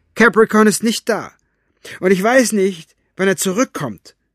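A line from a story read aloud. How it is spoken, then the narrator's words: Calling after someone. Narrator (German): rief ihm nach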